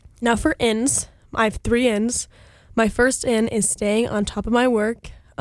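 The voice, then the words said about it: Congested, sick-sounding voice. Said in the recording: “maybe you can hear it in my voice, but I was really sick last week and I'm really tired of sounding like this. So my second out is congestion.”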